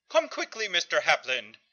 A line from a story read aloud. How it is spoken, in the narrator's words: he chittered urgently